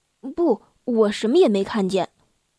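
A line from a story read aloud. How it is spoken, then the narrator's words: Flat, indifferent. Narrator (Chinese): 他淡淡的说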